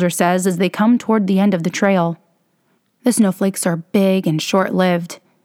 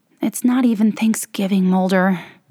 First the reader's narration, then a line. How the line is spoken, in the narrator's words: she says, and it comes out like a sigh